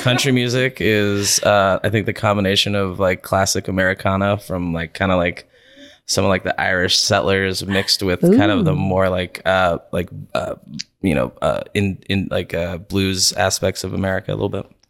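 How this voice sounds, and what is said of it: Sexy radio voice. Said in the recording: “your voice is very sexy. Can you hear that voice? ... I put my radio voice on this morning. ... I like your radio voice.”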